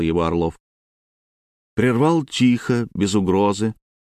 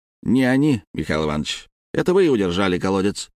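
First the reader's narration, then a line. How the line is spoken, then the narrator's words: Sharp. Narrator (Russian): резко ответил тот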